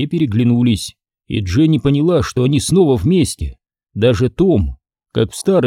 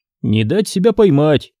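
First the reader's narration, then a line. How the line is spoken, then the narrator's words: Smirking snort. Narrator (Russian): хмыкнул Зак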